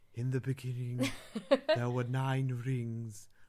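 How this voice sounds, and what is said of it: Ethereal imitated film voice. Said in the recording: “Cate Blanchett from Lord of the Rings... I wanted to have this really sort of ethereal voice.”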